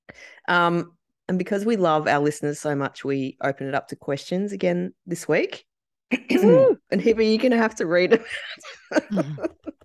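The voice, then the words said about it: Strained, failing voice. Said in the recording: “I am losing my voice”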